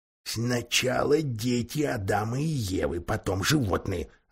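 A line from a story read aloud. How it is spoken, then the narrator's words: Whispered. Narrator (Russian): ответил шепотом мистер Бобр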